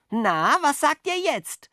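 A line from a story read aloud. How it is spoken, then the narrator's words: Called out to sparrows. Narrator (German): rief Jockel den Spatzen zu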